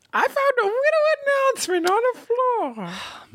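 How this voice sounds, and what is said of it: Baby voice. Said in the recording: “baby voice ... I knew it would lead to baby voice.”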